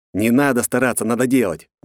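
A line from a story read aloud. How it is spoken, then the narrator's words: Snort. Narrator (Russian): хмыкнул я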